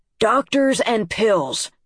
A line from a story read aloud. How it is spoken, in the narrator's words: Dad said, nearly shouting